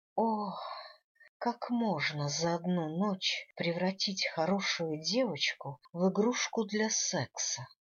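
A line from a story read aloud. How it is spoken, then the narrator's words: Moaning. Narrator (Russian): простонала я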